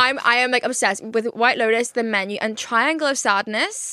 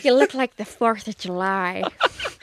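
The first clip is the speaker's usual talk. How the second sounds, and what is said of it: Imitates another person's voice. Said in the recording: “Can you do a Jennifer Coolidge impression? ... I'm so good at this.”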